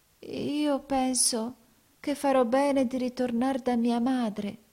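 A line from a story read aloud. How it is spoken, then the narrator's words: Timid voice. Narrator (Italian): disse con timida voce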